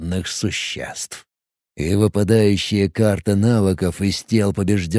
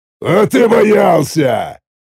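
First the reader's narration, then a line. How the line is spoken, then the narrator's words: Cheerful growl. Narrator (Russian): Весело рыкнул Тхарот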